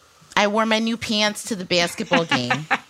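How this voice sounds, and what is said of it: Put-on Michigan Midwestern accent. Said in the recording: “a Michigander. ... Midwestern. ... I talk that way regularly. ... Michigan accent”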